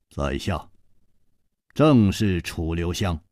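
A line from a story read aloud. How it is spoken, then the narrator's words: Deep, grave voice. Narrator (Chinese): 沉声说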